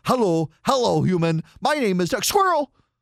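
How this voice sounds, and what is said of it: Cartoon talking dog character voice. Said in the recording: “I'm doing my Dug the dog impression right now ... Dug the dog in the movie Up is a dog that has a uh, a device around his neck”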